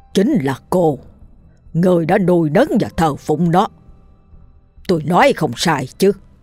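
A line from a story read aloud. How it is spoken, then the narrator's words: Stern, harsh. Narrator (Vietnamese): thầy Chính gằn giọng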